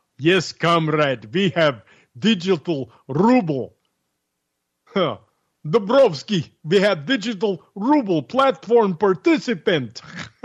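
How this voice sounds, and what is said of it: Put-on Russian accent. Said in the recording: “You like my Russian accent?”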